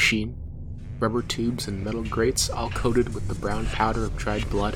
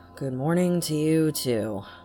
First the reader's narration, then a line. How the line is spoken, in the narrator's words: he said, his voice low and sleep rough